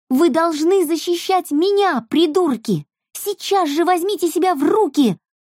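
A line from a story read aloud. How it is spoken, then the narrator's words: Screaming, voice breaking. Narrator (Russian): орала срывающимся голосом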